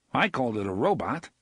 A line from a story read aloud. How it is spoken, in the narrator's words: Eddie said